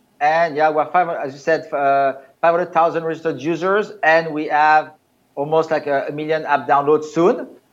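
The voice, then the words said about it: Speaks English with an accent. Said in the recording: “I can tell by your accent that I, I don't believe that you were um, born on the African um, continent”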